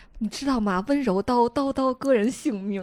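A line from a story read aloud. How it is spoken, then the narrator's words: Very happily. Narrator (Chinese): 跟皇上特别开心的说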